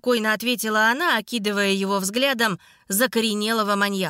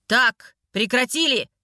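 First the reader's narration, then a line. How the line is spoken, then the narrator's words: Barked. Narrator (Russian): рявкнул Демьян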